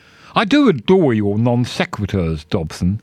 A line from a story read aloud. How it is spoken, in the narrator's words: said Marigold Chew